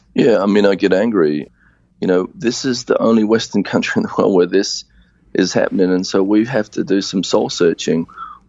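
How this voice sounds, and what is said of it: Australian accent. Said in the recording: “your accent, which betrays the fact that you're not from the U.S. You grew up in Australia.”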